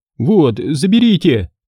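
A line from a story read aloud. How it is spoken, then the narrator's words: Mumbling youngster. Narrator (Russian): промямлил сосунок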